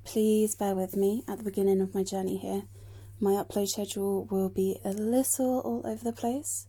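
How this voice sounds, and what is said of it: British accent. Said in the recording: “there was a distinct lack of British accents, and I'm here to bridge the gap”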